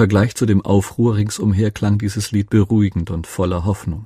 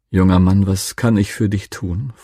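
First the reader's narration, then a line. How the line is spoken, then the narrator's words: Warm-hearted voice. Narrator (German): fragte er mit warmherziger Stimme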